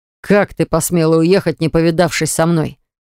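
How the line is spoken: Growling. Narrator (Russian): зарычал он

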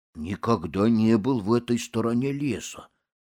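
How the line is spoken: Leopard's grumble. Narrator (Russian): проворчал леопард

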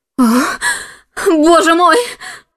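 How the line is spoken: Shout. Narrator (Russian): закричала она

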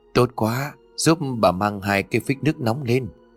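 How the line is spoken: Trembling old woman. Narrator (Vietnamese): Bà lão run rẩy đáp

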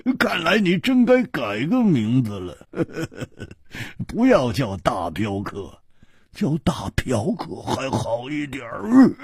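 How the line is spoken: Hearty laugh, teasing. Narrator (Chinese): 胡铁花哈哈一笑

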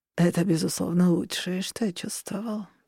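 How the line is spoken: Purring in ear. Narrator (Russian): промурлыкал мне на ухо

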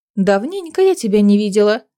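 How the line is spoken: Plain. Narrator (Russian): сказала ему Неста

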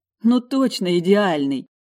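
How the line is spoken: Laughing. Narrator (Russian): Рома рассмеялся

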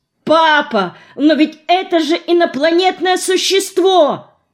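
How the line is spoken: Frantic shout. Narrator (Russian): Вне себя закричал я

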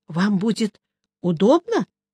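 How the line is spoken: Confused question. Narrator (Russian): растерянно спросил я

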